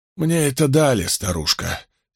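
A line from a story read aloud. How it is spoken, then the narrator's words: Hoarse rasping reply. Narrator (Russian): сипло прохрипел в ответ Мэтт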